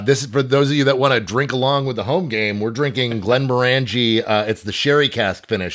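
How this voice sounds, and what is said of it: Scottish accent, partly held back. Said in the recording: “That fucking accent. Is crawling out of his ears. He's trying to hold it in so much. ... much like a Scotsman who pretends to be from Philadelphia”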